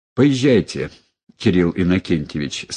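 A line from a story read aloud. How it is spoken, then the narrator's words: Plain. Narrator (Russian): сказал Ной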